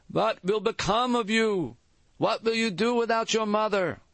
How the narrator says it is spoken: One of his aunts, a heavy-set woman, ... began to wail

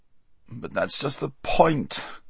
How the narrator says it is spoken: groaned Bree

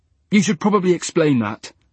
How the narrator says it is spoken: said Max sharply

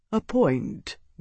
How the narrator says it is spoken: Gaius murmured

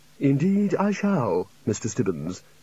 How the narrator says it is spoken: said the Chair calmly

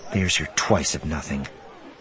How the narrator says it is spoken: she muttered

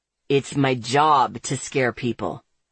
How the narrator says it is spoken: he growls

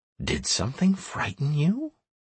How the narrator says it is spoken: asked quietly

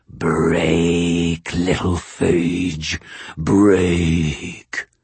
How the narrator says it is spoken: The skinwalker's mouth split into a leering smile of its own, and its bestial voice purred

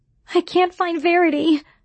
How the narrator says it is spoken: I wailed

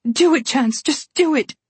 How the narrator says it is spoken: She begged her husband

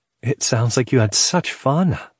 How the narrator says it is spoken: Leah said excitedly

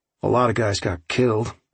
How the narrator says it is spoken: I said grimly

